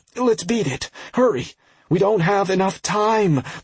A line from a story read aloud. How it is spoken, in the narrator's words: Plague all but cried out